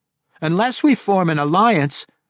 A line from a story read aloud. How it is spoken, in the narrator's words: Regis continued in the same urgent tones